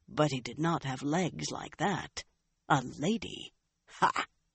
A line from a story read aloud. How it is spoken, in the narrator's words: In a mutter, he added